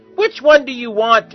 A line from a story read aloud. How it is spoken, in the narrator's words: He shouted